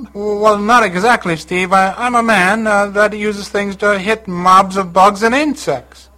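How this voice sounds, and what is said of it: Cheesy fake Italian accent. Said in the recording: “the cheesy Italian accent”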